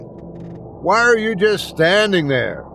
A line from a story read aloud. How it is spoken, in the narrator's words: I yelled this time